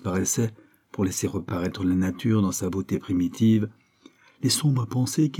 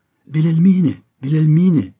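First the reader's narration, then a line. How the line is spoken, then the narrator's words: Child shouting. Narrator (French): cria un des petits étourdis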